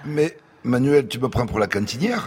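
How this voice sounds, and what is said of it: Put-on Toulouse accent. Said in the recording (French): “t'as un accent toulousain”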